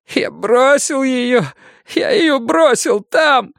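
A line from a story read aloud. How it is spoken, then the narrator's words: Sobbing young man. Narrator (Russian): зарыдал юноша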